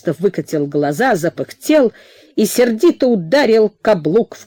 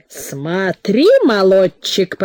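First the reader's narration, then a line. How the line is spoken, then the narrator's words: Guffawing. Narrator (Russian): захохотал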